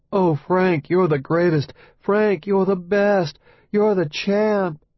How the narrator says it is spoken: his wife moaning upstairs

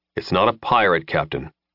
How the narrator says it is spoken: Lin said grimly

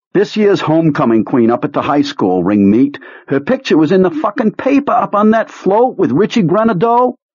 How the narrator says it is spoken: Beaver turns to Pete and blurts

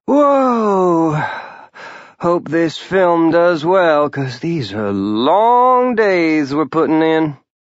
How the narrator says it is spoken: Jenny with an exhausted sigh, and said

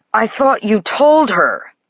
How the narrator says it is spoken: Over her screams, he yells at me

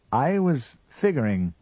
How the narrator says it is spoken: said the husband slowly

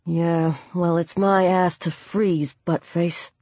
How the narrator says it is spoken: Chad muttered

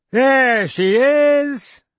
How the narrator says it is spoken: said over loudly

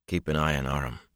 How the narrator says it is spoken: he said quietly

